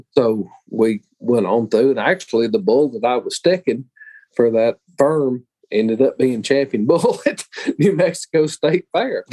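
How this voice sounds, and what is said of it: Southern US Georgia accent. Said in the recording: “you're not from around here, are you? ... I'm from Georgia ... I can tell ... I guess it's probably my accent.”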